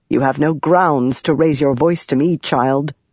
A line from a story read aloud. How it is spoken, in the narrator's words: Yasna said evenly